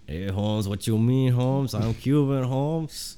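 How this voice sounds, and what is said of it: Weak put-on Mexican accent. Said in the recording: “It's hard to do Mexican, man, because I always, like, I'm not good at it, first of all, but also, like, the way I'm leaning is almost Puerto Rican woman.”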